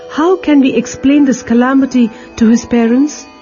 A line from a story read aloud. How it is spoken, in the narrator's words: The boys cried